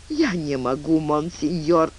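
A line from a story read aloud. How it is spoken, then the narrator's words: Moaning, crying. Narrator (Russian): она застонала и расплакалась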